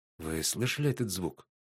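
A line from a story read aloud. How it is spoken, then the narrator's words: Whisper. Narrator (Russian): прошептала Сиена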